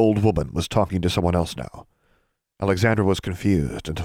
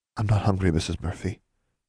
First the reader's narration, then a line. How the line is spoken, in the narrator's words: Anna said quietly